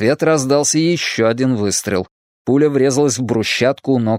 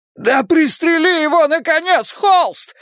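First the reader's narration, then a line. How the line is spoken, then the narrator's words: Desperate wail. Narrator (Russian): взвыл Хейлс в отчаянии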